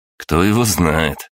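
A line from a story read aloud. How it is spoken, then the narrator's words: Wry snort. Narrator (Russian): я хмыкнул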